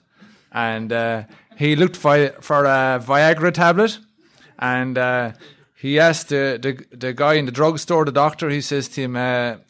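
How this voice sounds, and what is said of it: Irish accent. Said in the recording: “I'm from Ireland ... we have a weird accent over there in Ireland”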